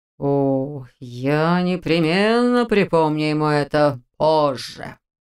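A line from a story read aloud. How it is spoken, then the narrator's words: Ominous drawl. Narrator (Russian): зловеще протянул Розенталь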